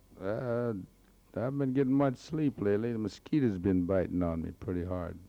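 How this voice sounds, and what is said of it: Hoarse, rough voice. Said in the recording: “my old hoarse voice”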